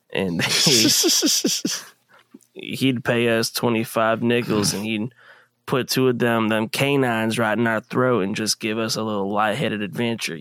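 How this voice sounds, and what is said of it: Imitates another person's voice. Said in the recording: “You do a really good Theo Vaughn impression”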